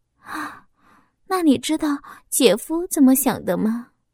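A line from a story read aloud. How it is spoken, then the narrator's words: Sighing. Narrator (Chinese): 小花叹息一声说道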